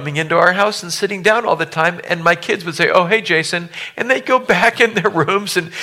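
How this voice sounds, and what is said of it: Usual voice. Nothing is said of it.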